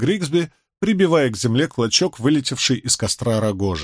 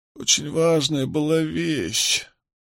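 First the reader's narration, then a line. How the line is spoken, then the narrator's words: Mumbling. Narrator (Russian): продолжал бормотать Мэтью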